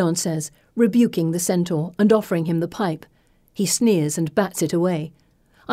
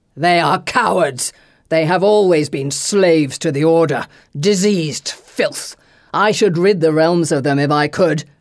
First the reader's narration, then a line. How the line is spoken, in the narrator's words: Christus bellows